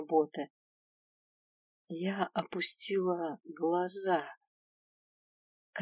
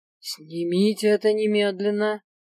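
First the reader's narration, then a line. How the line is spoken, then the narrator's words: Stern demand. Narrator (Russian): грозно потребовала я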